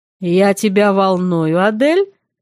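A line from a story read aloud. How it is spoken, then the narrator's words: Smirking snort. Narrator (Russian): хмыкнул он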